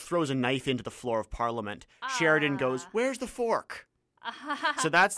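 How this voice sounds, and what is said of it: Usual voice. Nothing is said of it.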